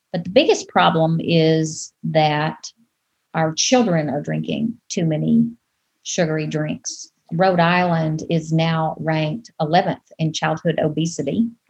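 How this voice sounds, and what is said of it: Southern US accent. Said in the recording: “you can probably tell from my accent that I'm not from here. I'm originally from the Deep South, from Arkansas.”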